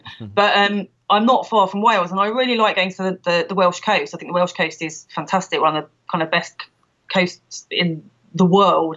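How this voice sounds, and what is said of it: London English accent. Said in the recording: “I'm from London originally, as I'm sure listeners will be able to tell from my accent.”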